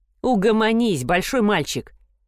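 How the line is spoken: Teasing snort. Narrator (Russian): Эш фыркнул, подначивая своего друга

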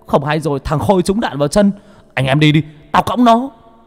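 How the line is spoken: Yelling. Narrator (Vietnamese): Bảy ếch gào lên

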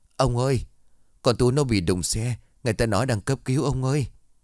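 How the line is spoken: Tearful voice over phone. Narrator (Vietnamese): Ở đầu dưới bên kia giọng của bà Thu mếu máo

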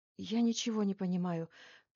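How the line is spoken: Whispered answer. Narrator (Russian): почему-то шепотом ответила ему Лилия Федоровна

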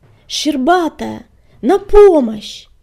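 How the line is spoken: Screaming, breathless with pain. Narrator (Russian): завопил Огнегриф, задыхаясь от боли

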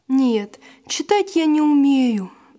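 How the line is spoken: Sigh. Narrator (Russian): вздохнул Василь

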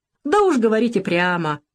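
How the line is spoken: Loud guffaw. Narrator (Russian): захохотал Волохов

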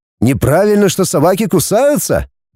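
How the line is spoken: Cheerful exclamation. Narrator (Russian): весело воскликнул Деня

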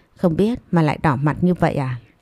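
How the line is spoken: Soft chuckle. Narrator (Vietnamese): Anh cười khẽ

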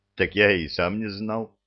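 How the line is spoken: Snorting. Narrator (Russian): хмыкнул Кевин

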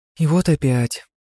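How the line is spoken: Agitated whisper. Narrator (Russian): взволнованно зашептала Яни

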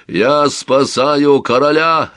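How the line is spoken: Stern bark. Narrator (Russian): рявкнул Амонт с закостеневшим лицом

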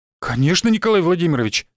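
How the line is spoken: Exclamation. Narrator (Russian): воскликнул он

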